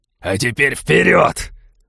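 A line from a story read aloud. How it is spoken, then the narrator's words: Bark. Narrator (Russian): рявкнул Балфер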